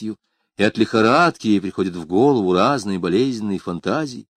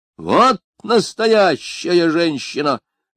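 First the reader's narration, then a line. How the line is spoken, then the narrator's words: Shouting. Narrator (Russian): закричал Берман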